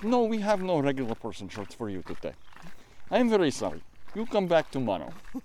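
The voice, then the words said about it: Put-on Russian accent. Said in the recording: “It was actually more Russian than Icelandic for the accent”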